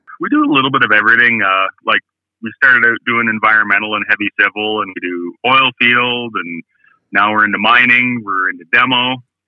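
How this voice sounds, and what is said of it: Slight Canadian accent. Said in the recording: “you have a slight Canadian accent”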